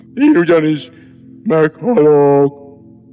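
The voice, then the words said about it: Deep, gloomy, sepulchral voice. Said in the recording (Hungarian): “síribb hangon”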